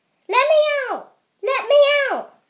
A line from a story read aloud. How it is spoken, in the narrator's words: he yelled